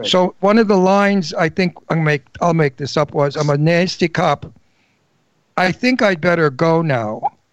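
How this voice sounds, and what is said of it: Old-fashioned Brooklyn accent. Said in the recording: “I have a wonderful antique Brooklyn accent because I'm 79, and there aren't too many people that have my accent anymore ... the first generation from an Italian family, you have this wonderful accent”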